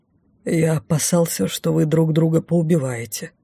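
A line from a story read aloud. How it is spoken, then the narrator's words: Muttered under breath. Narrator (Russian): пробормотал вполголоса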